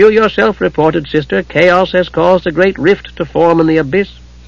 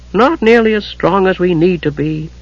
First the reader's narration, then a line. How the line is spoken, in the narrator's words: Gillian said with a sigh